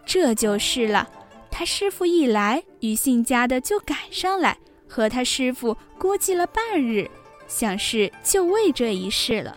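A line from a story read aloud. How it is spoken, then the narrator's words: Laughing. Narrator (Chinese): 惜春……笑道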